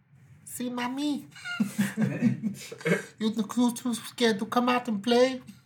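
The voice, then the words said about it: Exaggerated put-on Spanish accent. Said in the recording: “It's a horrible, racist Spanish accent.”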